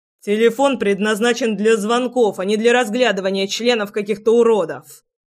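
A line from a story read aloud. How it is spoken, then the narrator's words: Barking snap. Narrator (Russian): рявкнул Горыныч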